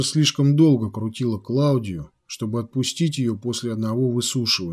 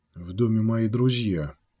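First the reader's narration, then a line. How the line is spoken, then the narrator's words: Quiet explanation. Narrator (Russian): негромко объяснил Треми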